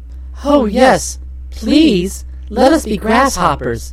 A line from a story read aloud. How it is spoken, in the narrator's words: exclaimed the High Ki maids in the same breath